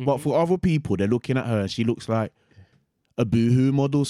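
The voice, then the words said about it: Birmingham accent. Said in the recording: “That accent, that's the Birmingham thing, isn't it? ... I find it hard to listen to. It's harsh.”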